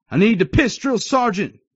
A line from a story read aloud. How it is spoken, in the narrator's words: I shouted